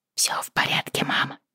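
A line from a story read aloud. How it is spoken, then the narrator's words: Whisper. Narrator (Russian): прошептала она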